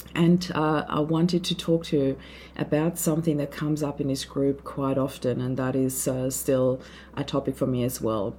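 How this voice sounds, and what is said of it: Hoarse, sore-throat voice. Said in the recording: “I have a bit of a sore throat, so please forgive the voice.”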